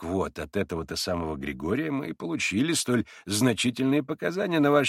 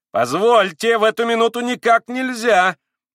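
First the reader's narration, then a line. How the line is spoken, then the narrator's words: Nearly shrieking. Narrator (Russian): Даже чуть не взвизгнул Николай Парфенович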